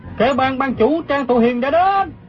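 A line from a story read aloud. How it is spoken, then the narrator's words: Crowd shouting. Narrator (Vietnamese): Quần hùng la lên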